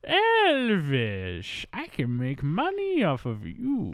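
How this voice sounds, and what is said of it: Imitates a comedy character's accent. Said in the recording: “Colonel Tom Parker sounded like Goldmember”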